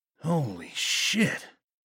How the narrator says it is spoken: he breathed

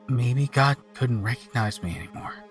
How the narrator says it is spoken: he said quietly

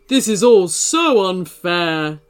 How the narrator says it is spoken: screamed Sugartooth

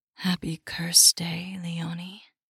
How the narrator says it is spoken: a velvet voice breathed

